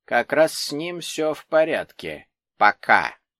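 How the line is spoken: Stern. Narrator (Russian): строго добавила Изольда Робертовна

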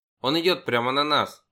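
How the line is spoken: Shout. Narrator (Russian): крикнул я

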